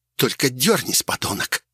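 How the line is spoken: Menacing hiss. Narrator (Russian): прошипела в ответ на это Вилкина

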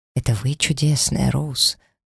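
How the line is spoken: Whisper. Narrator (Russian): прошептал он

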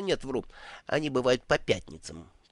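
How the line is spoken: Muttering. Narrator (Russian): пробормотал святой Когтей

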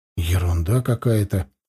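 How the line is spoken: Mumble. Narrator (Russian): пробормотал я

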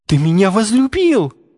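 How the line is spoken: Exclaiming. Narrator (Russian): воскликнул он

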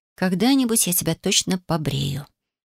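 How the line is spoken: Quiet. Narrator (Russian): произнесла тихо

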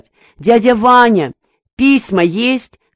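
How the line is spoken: Shouting. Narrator (Russian): кричала она ему

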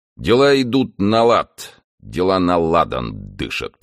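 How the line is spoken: Mutter. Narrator (Russian): пробурчал он

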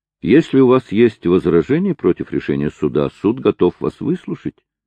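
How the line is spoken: Soft. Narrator (Russian): сказал Мармадюк Темпл мягко

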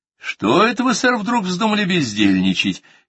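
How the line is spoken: Cheerful question. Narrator (Russian): весело осведомился я

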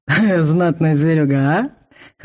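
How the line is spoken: Chuckling. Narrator (Russian): хохотнул Вал

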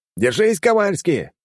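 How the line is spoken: Shouted. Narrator (Russian): крикнул ему

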